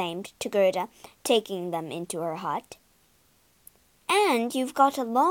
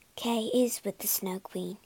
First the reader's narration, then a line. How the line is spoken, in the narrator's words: she whispered